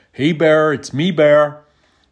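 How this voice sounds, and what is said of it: Put-on American accent. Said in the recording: “We always used American accents.”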